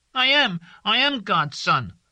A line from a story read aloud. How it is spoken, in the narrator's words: Tazu shouted